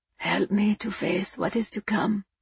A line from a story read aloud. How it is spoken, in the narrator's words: he murmured through lips that wouldn't cooperate